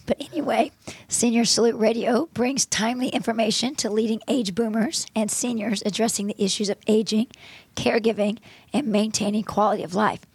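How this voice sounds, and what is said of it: Gravelly, hoarse voice. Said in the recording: “my voice is not normal today because I am sounding sexy and gravelly instead of lawyerly”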